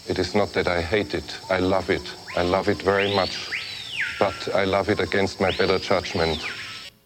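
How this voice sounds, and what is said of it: Thick foreign accent. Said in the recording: “the thick accent”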